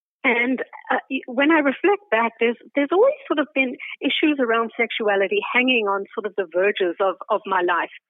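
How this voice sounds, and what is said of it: South African accent with Canadian tinge. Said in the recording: “I'm originally from South Africa, which you may be able to tell from my accent. It has a Canadian veneer on it”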